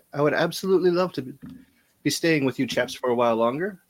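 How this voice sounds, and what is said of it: Put-on British accent. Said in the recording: “Have you always had that accent? ... He got very British.”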